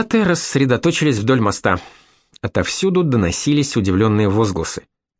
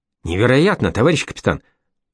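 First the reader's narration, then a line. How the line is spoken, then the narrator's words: Mutter. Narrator (Russian): пробормотал Кривошеев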